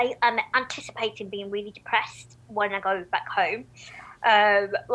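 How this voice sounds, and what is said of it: Usual voice. Nothing is said of it.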